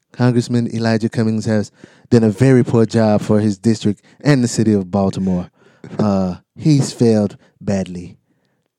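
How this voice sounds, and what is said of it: Donald Trump impression. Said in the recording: “do my Trump voice”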